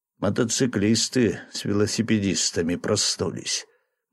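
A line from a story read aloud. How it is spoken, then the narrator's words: Grim. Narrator (Russian): мрачно сказал врач Голубев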